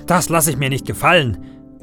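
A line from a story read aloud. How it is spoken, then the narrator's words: Roaring. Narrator (German): brüllt er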